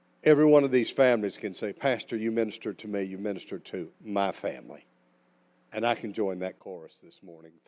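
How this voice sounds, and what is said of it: Southern American accent, slow speech. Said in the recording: “I've got a southern accent and I talk slow”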